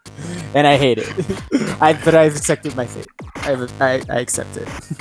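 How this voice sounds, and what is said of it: High boyish voice. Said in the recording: “my voice is fucking. I sound like a prepubescent boy ... I'm a 29-year-old man, but I sound like a prepubescent”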